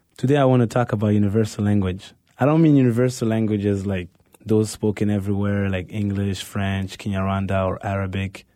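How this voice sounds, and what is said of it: Exotic foreign accent. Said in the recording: “my exotic accent”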